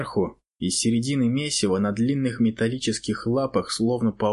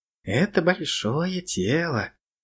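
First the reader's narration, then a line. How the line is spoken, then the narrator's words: Slightly squeaky little voice. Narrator (Russian): сказал клопик своим обычным слегка писклявым голоском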